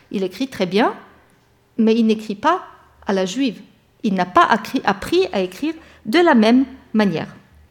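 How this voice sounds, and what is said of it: Non-native accent in French. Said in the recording (French): “quelqu'un qui parle une deuxième langue peut avoir un accent, comme moi”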